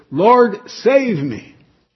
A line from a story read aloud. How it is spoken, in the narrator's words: shouted as loud as he could